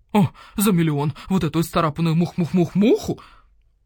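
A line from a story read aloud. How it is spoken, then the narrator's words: Hoarse laughter. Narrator (Russian): Уг хрипло захохотал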